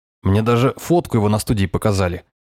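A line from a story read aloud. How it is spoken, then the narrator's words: Amused snort. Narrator (Russian): хмыкнул Островой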